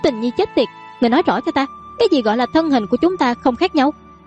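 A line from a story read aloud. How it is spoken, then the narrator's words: Angry. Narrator (Vietnamese): Đường Yêu Yêu giận dữ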